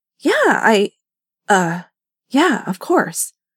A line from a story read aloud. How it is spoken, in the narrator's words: Evan stammered